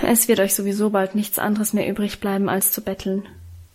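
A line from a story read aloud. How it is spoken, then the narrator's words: Muttered while leaving. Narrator (German): murmelte er im Hinausgehen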